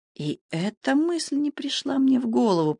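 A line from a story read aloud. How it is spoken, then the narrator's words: Whisper. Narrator (Russian): прошептал Лекок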